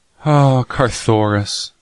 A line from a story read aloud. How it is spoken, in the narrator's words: she replied sadly